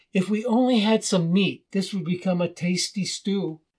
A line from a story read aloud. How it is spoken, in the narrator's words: he said, but added wistfully